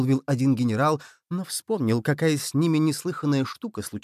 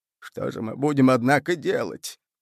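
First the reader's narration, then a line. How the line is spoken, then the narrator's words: Tearful. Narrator (Russian): продолжал он сквозь слезы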